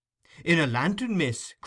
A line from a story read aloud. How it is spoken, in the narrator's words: cried Brittles, applying one hand to the side of his mouth so that his voice might travel the better